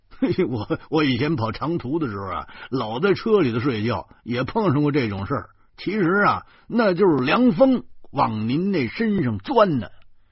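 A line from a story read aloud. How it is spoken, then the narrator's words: Laughing heartily. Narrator (Chinese): 周胖子哈哈笑着说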